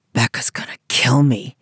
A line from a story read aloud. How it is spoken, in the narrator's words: he muttered